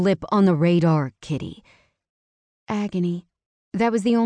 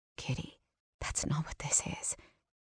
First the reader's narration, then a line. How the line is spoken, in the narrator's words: he whispered